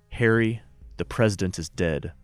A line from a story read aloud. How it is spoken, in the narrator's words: calmly said